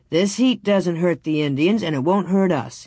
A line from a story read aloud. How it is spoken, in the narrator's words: he said